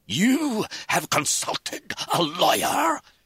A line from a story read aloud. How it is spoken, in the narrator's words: he spluttered